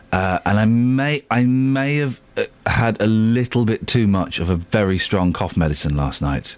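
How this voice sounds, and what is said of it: Sore-throated, rough voice. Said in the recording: “I've got a sore throat”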